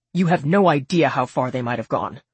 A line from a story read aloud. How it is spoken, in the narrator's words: Kim snapped